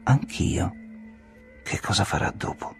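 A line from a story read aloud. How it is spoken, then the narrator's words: Very low voice. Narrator (Italian): chiesi a voce bassissima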